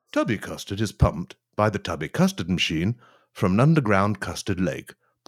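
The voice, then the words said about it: Pleasant, polished narrating voice. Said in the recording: “put on a nice voice”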